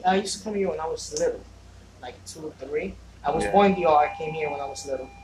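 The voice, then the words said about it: Thick accent. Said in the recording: “I used to live in the Dominican Republic... So my accent is pretty thick.”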